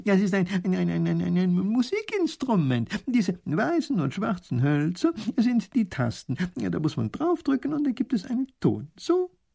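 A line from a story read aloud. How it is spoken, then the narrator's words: Laughing, old man. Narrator (German): lacht der Professor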